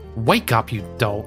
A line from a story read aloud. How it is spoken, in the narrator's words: she snapped